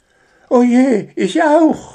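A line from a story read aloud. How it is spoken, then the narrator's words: Horrified cry. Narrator (German): rief entsetzt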